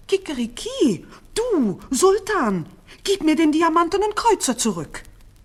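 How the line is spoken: Rooster screaming louder. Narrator (German): Dann aber flog das Hähnchen wieder an das Fenster des Sultans und schrie noch lauter

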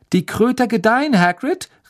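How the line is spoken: Called out. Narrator (German): rief Harry

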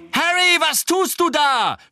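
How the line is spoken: Shouting. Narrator (German): schrie Angelina

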